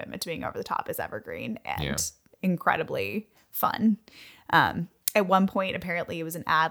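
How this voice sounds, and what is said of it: Usual voice. Nothing is said of it.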